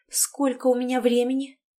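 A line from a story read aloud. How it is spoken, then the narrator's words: Timid question. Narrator (Russian): робко поинтересовалась Тоня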